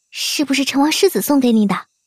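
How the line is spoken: Whispered teasing. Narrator (Chinese): 几位同窗……悄声打趣邓维礼

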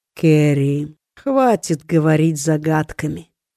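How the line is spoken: Tired, curt. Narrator (Russian): устало бросил Лид

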